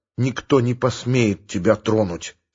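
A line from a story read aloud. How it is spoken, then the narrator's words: Quiet and solemn. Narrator (Russian): сказал тихо и торжественно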